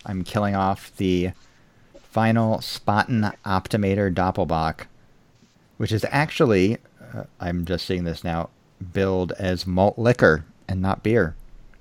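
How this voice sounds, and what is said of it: American accent. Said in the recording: “with an American accent.”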